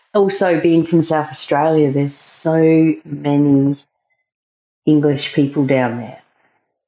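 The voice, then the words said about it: South Australian accent, sounds English. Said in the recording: “my accent. Oh, people say, what part of England are you from? I'm not from England. I'm just from South Australia”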